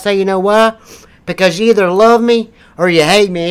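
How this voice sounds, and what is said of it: Rough mountain-country accent. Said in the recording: “What, you making fun of my accent? Just come from goddamn mountains?”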